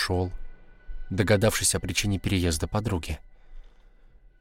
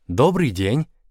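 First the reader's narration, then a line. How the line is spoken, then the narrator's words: Cheerful woman. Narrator (Russian): весело сказала незнакомая женщина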